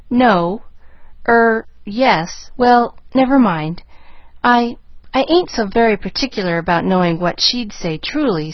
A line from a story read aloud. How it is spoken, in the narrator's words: stammered Nancy